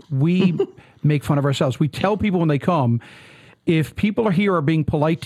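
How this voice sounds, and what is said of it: Newfoundland accent, fast speech. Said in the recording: “we speak with a different accent ... I talk very fast”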